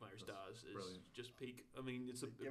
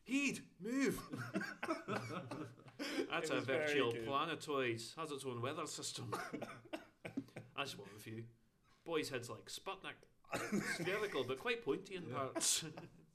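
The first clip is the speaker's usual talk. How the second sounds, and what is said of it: Put-on Scottish accent. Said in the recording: “It's the best Scottish accent.”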